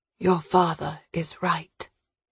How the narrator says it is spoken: Stephen said softly

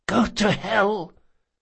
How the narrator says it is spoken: the falconer spat

